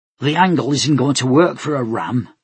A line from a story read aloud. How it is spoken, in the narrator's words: Ibana snorted